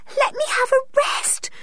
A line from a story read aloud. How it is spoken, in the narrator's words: panted